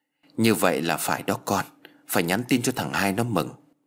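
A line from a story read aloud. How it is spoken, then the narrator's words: Gentle, touched. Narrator (Vietnamese): bà chủ Bành cũng động lòng và dịu dàng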